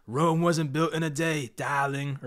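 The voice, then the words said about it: Impression of Gettleman's accent. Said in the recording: “in Gettleman's accent”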